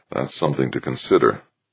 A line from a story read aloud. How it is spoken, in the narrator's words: Archer murmured